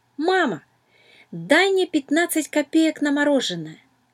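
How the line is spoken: Child shouting from doorway. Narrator (Russian): Дима ... прямо с порога крикнул

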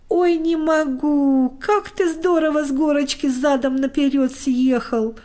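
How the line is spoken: Roaring laughter. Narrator (Russian): хохотал Костик

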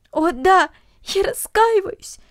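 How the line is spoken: Sobbing. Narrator (Russian): всхлипывала Люся

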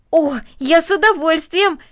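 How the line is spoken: Excited exclamation. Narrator (Russian): воскликнул Дино

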